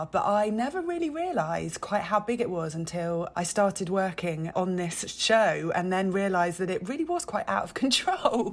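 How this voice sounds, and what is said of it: British accent. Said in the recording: “As you can probably tell from my accent, I am not from the States. So I was over the pond in the UK”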